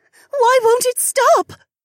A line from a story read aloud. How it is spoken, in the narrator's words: Shay said in a shaky voice